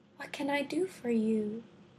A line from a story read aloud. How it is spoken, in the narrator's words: she inquired softly